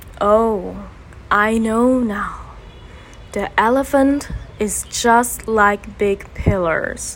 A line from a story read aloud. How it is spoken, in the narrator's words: said slowly